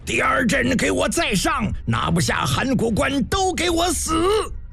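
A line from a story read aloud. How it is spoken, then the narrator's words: Furious bellowing roar. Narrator (Chinese): 面色铁青，想喊什么，硬是愣怔着喊不出来，憋得片刻跳脚大吼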